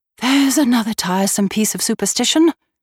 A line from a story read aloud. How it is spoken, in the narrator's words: she exclaimed